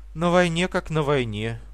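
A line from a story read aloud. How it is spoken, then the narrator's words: Sigh. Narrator (Russian): вздохнула она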